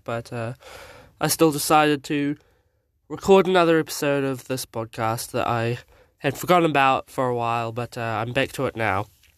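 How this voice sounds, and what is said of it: Sick-sounding voice. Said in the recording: “my voice sounds a little bit bad today, I am sick”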